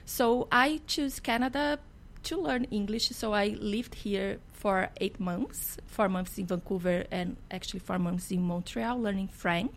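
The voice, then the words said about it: Strong Brazilian Portuguese accent. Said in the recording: “in Brazil we speak Portuguese ... I have a strong accent”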